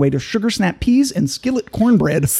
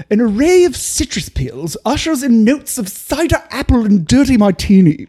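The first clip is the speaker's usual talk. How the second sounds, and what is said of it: Hoity posh British accent. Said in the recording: “say it with an English accent. But hoity ... Do the finish with a British accent”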